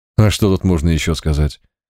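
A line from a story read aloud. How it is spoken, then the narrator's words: Calm. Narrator (Russian): спокойно ответил Март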